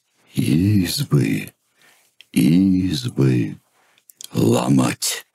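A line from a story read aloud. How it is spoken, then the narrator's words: Indistinct gloomy voices. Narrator (Russian): Невнятно, но как-то мрачно произнесли оловянные солдатики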